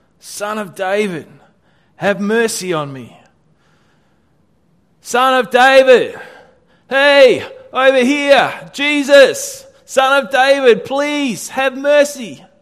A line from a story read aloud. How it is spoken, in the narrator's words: he only shouted louder